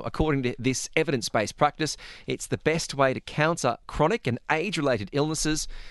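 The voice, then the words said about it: Australian accent. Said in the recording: “nice to hear an Australian accent.”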